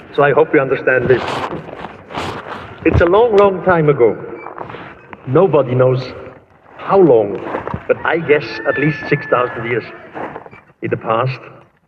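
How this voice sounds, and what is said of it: Swiss German accent in English. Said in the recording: “You probably hear it, my accent, I'm Swiss. And my first language, my mother language is German.”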